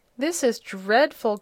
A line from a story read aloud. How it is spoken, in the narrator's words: groaned Jim